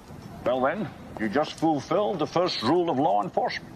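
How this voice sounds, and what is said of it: Scottish actor's imperfect Irish accent. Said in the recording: “Not the best Irish accent in the world ... the legendary Scotsman playing the Irish James Malone”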